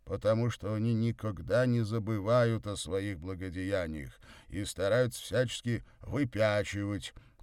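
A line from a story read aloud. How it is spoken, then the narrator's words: Angry deep bass. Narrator (Russian): сердито пробасил Горький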